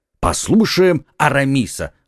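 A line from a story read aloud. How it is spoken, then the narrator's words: Group exclaiming. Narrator (Russian): воскликнули друзья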